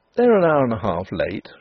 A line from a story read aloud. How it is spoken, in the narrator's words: said Denry calmly